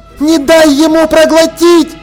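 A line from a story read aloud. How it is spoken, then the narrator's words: Yelled. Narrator (Russian): заорала Полли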